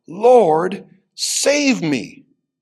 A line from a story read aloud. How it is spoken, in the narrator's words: he was afraid, and beginning to sink, cried out